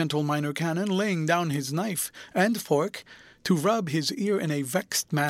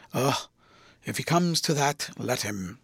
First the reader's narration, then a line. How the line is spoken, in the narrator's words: Septimus breathed more freely and muttered